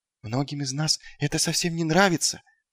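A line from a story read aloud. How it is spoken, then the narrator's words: Whisper. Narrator (Russian): прошептал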